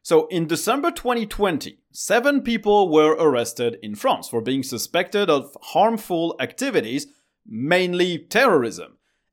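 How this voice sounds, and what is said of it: French accent. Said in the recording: “France, which is the country where I live, if you didn't know that by my stupid accent.”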